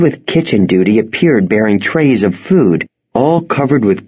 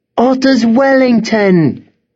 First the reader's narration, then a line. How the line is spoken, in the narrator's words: one boy cried